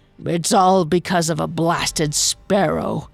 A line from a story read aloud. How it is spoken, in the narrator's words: he grumbled, seemingly more to himself than to her